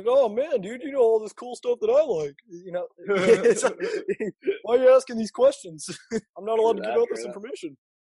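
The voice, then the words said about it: Imitates another person's voice. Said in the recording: “That's my Kevin Feige impression. It's really good, isn't it? ... I thought I was talking to him for a second ... guy in his 40s”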